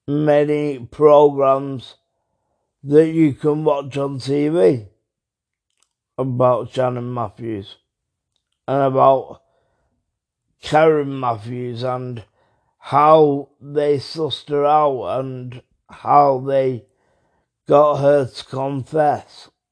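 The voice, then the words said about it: Strained, failing voice. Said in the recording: “as you can hear, my voice is going a little bit”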